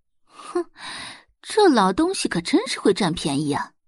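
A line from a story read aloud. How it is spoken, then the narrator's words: Insincere sneering. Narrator (Chinese): 周磊皮笑肉不笑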